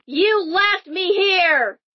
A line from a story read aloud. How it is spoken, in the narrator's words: the spirit screams